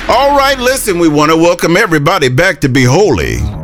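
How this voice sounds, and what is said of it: Put-on radio announcer voice. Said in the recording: “Do you like my new radio voice?”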